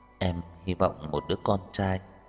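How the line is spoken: Soft smiling reply after pause. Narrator (Vietnamese): Tần Chỉ Ái trầm mặc trong chốc lát, nhẹ nhàng nở nụ cười mới trả lời

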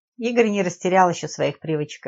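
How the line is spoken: Laughing. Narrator (Russian): рассмеялся Лев

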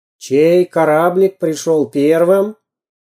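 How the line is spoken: Loud question, sea captain. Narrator (Russian): громко спросил настоящий морской капитан

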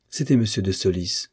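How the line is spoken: Plain. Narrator (French): répondit-elle

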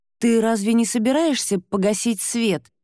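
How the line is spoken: Trembling, strained. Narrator (Russian): выдавила я дрожащим голосом

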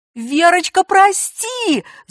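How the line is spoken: Wailing cry. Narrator (Russian): завопила Надежда

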